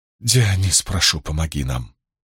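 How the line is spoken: Pleading. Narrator (Russian): взмолилась она

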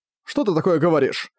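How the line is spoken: Indignant tone. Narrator (Russian): негодующим тоном обратился к Цзуи

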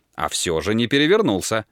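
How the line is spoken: Calm objection. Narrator (Russian): возразил Дик спокойно

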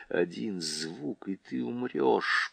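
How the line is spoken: Threatening whisper. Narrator (Russian): прошептал ему на ухо Тириан

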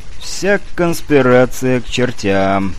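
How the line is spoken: Involuntary words, sigh. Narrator (Russian): невольно произнес и вздохнул

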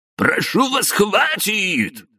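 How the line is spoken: Surprisingly loud shout. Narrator (Russian): на удивление громко прокричал Демиденко

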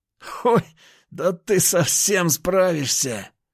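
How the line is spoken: Loud laughter. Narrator (Russian): расхохотался тот

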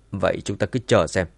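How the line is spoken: Cold flat voice. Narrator (Vietnamese): Tống Hoa Nghĩa lạnh lùng

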